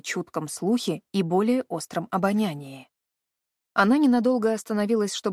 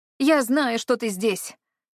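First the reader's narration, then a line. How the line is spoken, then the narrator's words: Shout. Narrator (Russian): крикнула она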